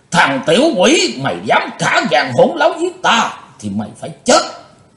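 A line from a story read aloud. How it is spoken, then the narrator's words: Panicked loud roar. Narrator (Vietnamese): Hắn hốt hoảng gầm to lên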